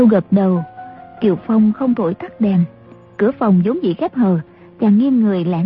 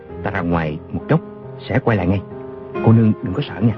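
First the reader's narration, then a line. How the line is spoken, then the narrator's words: Soft gentle voice. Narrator (Vietnamese): Chàng khẽ bảo A Châu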